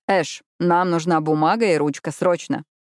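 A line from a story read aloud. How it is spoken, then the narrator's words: Calm. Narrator (Russian): Спокойно встретил Джаспер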